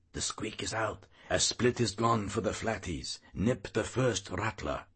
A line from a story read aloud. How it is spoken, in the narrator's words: whispers hoarsely